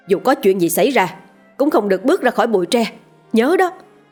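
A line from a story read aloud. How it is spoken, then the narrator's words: Hurried loud shout. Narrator (Vietnamese): vội nhìn sang cô Lý hét lớn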